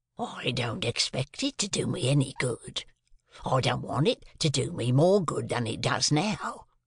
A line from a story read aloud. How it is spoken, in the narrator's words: said my convict, with a greedy laugh